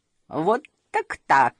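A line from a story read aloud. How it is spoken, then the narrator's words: Laughing. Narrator (Russian): рассмеялась мама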